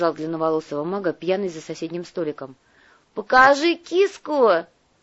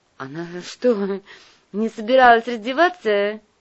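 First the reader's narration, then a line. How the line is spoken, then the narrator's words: Giggling woman. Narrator (Russian): хихикнула блондинка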